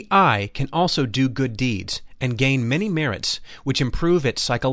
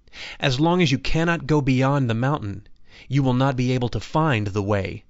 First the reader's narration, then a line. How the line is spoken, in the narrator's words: replied the master